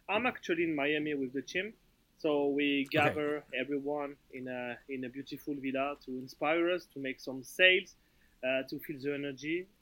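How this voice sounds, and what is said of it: Noticeable foreign accent. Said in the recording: “his amazing accent”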